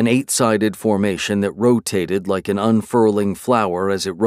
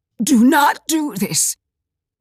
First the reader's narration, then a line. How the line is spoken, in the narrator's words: Malgirza rasped